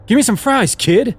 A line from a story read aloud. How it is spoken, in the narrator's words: he yelled